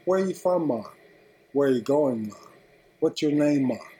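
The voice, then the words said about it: Put-on Jamaican accent. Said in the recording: “everyone in Jamaica has an accent.”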